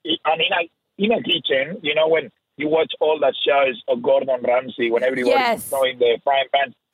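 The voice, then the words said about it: Rough non-native English accent. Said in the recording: “I couldn't speak one word of English ... my accent listens so rough”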